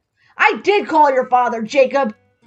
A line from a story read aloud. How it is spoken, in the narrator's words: Megan snapped